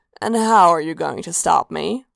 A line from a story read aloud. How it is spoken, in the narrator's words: purred